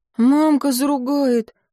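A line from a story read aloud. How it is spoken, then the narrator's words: Coachman's young son, timid. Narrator (Russian): робко подал голос сынишка возницы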